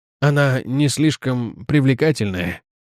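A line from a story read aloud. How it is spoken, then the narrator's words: Uncertain. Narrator (Russian): неуверенно сказал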